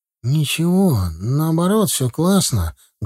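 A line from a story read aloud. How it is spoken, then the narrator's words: Sad smiling reply. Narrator (Russian): грустно улыбаясь, ответил друг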